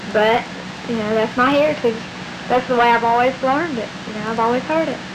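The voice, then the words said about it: Southern American accent. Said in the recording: “My southern accent is here. I can't help that.”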